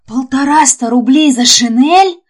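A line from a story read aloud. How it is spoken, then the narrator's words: Cried out, poor man. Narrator (Russian): вскрикнул бедный Акакий Акакиевич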